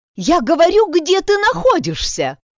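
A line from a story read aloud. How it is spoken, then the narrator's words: Yelled, losing composure. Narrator (Russian): Заорала она, забыв данное себе обещание оставаться спокойной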